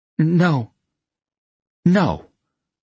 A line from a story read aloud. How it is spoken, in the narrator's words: she said more firmly the second time